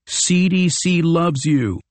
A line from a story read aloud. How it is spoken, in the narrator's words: shouted